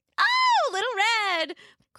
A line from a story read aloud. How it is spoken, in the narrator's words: Grandmother exclaimed happily